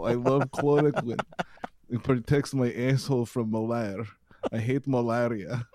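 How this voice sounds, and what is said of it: Put-on generic Eastern European accent. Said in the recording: “the accent, even though it's clearly Eastern European grab bag”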